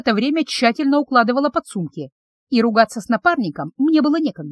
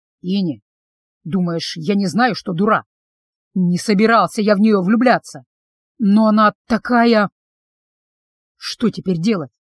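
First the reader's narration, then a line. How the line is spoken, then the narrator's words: Upset, heavy grumbling. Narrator (Russian): Я психанула и разворчалась уже не на шутку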